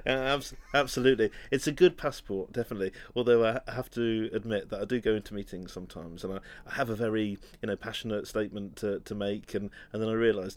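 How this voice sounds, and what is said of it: British accent. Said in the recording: “you've got a British accent ... I speak funny”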